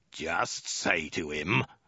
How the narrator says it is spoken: the soldier snarled again

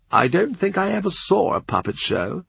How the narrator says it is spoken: Fisher said sadly

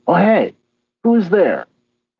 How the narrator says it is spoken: The mind seer called out

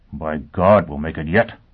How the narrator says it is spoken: Foyle mumbled

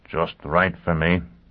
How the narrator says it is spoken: Foyle muttered

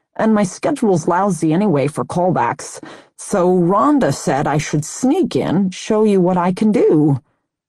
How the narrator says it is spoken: the 20-year-old continued to whine/lisp

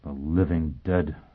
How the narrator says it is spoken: Foyle muttered

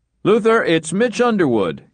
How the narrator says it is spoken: came a booming voice

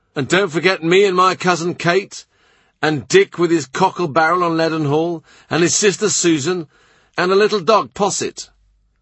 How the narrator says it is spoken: some person has shouted out

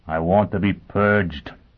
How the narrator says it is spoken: he said in a suffocated voice

